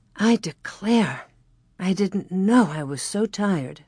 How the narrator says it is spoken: Ma sighed peacefully

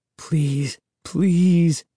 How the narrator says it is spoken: I begged silently

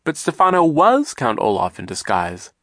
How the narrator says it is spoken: Klaus exclaimed

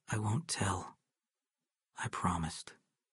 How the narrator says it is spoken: Adam said softly

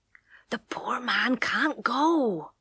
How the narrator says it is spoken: she whispered

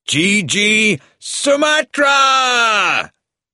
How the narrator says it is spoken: The last word was a shout

